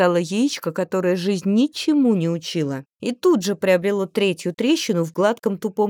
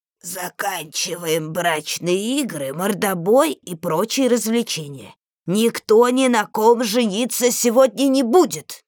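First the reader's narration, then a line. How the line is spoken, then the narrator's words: Creaky, ancient voice. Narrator (Russian): проскрипела древняя рогатая картошка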